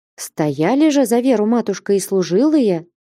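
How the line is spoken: Timid interjection. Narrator (Russian): робко ввернула слово Аркадия, слывшая за великую начетчицу

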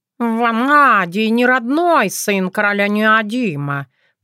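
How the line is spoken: Purring cats. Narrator (Russian): промурлыкали коты

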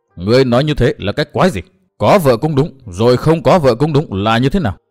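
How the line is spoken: Angry emperor shouting. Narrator (Vietnamese): Càng tức giận trước vẻ nhẫn nhơ của Tư Mã Minh, đế quân thét vang

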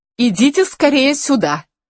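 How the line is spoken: Shouting. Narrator (Russian): крикнула Луиза

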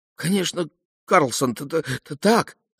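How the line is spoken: Child stammering with excitement. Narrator (Russian): залепетал малыш, заикаясь от волнения

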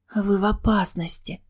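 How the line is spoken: Dejected mumble. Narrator (Russian): упавшим голосом пробормотала я

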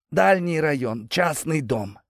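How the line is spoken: Forced-out reluctant words. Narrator (Russian): наконец выдавил из себя Валера

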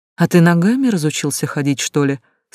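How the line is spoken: Calm question. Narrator (Russian): спокойно спросила девушка

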